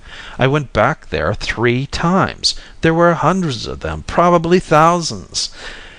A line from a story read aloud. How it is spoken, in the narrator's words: Simon said bitterly